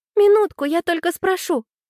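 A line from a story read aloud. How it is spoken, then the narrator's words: Pleading. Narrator (Russian): взмолилась Аня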